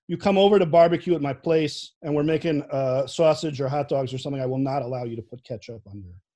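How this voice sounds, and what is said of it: Chicago accent. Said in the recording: “the most Chicago thing about me, besides my accent”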